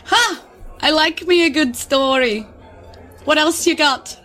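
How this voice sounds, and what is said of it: Bad put-on accent. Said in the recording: “Excuse my accents, by the way, because they're real bad.”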